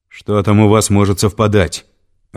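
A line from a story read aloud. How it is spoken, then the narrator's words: Irritated question. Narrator (Russian): раздраженно спросил Константин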